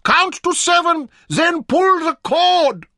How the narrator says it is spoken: he shouted after her

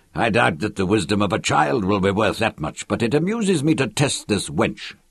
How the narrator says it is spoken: Lannan mumbled, looking anything but amused

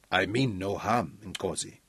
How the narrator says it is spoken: A voice answered quickly in deep Zulu

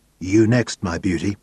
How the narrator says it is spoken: whispered in her ear

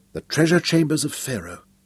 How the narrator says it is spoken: he whispered

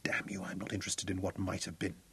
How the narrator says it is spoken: whispered

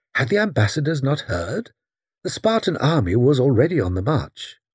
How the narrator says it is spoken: exclaimed blandly

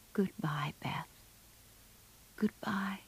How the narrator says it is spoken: softly whispered

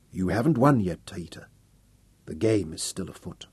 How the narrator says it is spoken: She ... said softly

